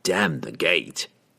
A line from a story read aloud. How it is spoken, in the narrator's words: Entreri snarled